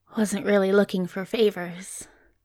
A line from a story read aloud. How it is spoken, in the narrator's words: murmured Crowley huskily